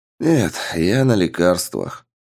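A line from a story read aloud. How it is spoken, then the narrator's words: Sad. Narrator (Russian): грустно ответил наглый проглот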